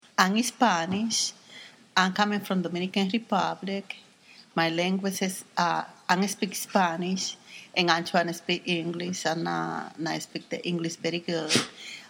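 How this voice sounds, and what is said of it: Spanish-speaker's accent in English. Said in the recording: “my accent.”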